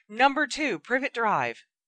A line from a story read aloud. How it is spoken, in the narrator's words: Together, they shouted